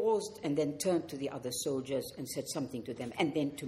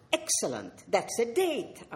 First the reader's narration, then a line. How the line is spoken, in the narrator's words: I exclaimed